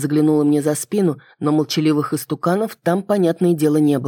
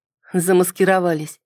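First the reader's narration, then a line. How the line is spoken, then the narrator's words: Wry snort. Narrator (Russian): хмыкнула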